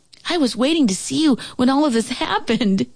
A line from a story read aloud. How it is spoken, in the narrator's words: Joey exclaimed